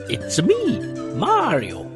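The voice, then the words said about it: Terrible Mario voice impression. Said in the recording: “Sorry for the terrible impression, by the way, Charles Martinet.”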